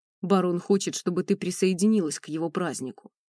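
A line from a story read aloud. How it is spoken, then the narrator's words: Deep bass voice. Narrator (Russian): пробасил этот здоровяк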